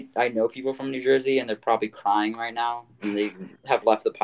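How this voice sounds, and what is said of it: Usual voice. Nothing is said of it.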